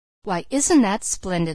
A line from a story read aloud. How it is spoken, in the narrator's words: laughed the Bird Woman